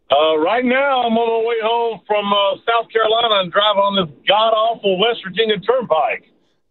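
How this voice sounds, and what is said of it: Noticeable regional American accent. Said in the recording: “I hear the accent.”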